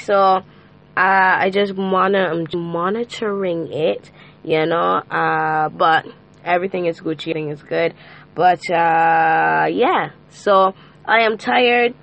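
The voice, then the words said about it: Hoarse voice from a cold. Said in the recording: “as you can hear from my vocal cards... I am hoarse, or soon to be hoarse. I have a cold”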